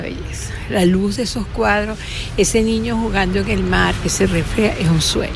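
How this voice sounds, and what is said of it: Pleasant regional accent. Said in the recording (Spanish): “Qué lindo ese acento”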